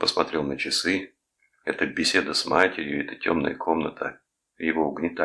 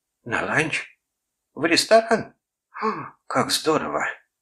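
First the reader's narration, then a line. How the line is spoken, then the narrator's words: Girlish exclamation. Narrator (Russian): воскликнула, словно девчонка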